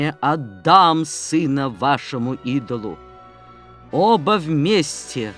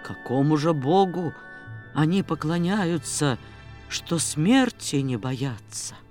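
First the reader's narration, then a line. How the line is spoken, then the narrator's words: Quiet voice from crowd. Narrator (Russian): Кто-то в толпе негромко спросил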